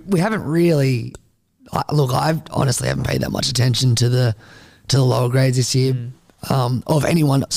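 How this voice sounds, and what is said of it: Dry, strained voice. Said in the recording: “Sorry for my voice. ... I just need water like 100% of the time.”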